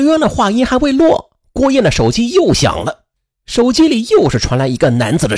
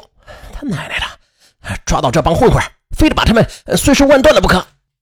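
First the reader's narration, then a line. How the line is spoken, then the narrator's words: Furious, through gritted teeth. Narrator (Chinese): 刘洋 暴跳如雷，咬牙切齿地说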